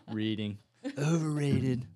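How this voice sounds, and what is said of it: Imitates another person's voice. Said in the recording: “That was my Donald Trump impersonation”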